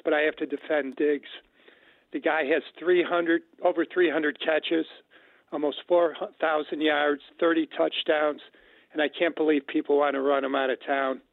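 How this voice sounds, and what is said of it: Congested, rough voice from a cold. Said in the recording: “I'm getting over a cold and my voice is a mess”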